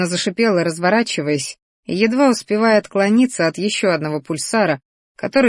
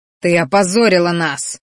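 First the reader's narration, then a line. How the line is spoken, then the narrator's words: Roar. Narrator (Russian): взревел боевик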